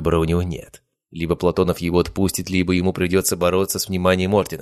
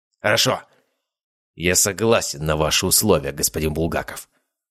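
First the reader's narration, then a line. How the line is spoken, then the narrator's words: Through gritted teeth. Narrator (Russian): процедил Аскольд Афанасьевич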